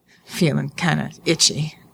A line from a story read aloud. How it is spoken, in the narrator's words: he muttered